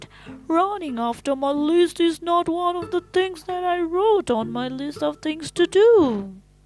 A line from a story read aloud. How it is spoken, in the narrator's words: wailed Toad